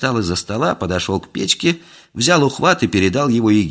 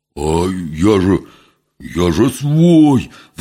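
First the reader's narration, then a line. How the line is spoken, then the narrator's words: Wailing, cut short. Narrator (Russian): взвыл было Митька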